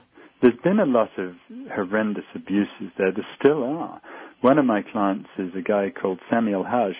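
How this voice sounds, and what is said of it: Speaks with a non-American accent. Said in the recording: “despite my accent, I am American”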